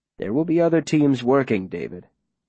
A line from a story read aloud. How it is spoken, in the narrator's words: the mayor says calmly